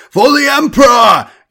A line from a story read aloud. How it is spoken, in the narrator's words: Tyadeus cried